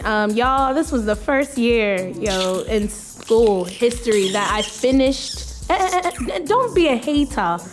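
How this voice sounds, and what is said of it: Put-on unfamiliar accent. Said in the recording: “Where's this accent coming from? ... I've been forming different accents.”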